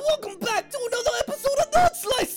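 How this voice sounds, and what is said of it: Cartoon voice of Hopper the Rabbit. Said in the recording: “my Hopper voice ... Hopper the Rabbit”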